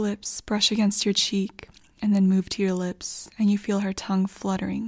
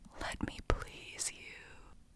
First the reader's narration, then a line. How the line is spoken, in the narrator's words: her warm breath in your ear as she whispers